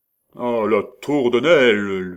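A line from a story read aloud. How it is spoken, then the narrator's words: Terrible voice. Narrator (French): lui répondit Guénegou d'une voix terrible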